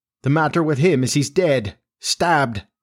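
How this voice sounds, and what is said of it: Hollow voice. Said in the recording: “in a hollow voice”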